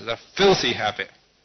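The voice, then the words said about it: Very loud, shouting. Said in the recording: “in a very loud voice”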